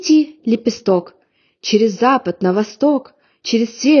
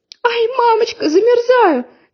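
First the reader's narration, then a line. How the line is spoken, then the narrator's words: Crying shout. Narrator (Russian): закричала Женя и стала плакать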